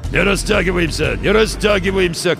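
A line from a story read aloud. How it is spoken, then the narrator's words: Hoarse commanding voice. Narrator (Russian): командовал хриплый голос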